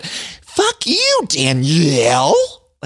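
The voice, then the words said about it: Animated impression of Paige. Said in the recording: “Like the way she said it. I don't know if that's a good impression... Like it's so animated.”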